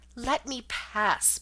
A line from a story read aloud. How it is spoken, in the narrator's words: pleaded